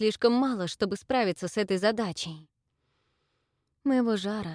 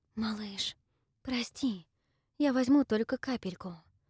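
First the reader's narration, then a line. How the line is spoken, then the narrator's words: Tender whisper. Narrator (Russian): прошептала я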